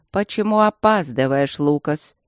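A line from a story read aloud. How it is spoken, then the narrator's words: Displeased grumbling king. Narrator (Russian): проворчал король, недовольно щурясь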